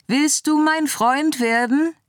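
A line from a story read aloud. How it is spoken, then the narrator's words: Calling down. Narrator (German): rief Scarlett zu ihm herunter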